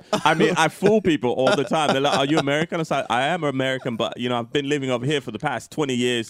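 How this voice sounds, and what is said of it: Put-on British accent. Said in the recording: “I can't believe you're speaking like that ... When I'm in the UK, I speak like this all the time ... the accent's got me now ... so I can speak with an accent”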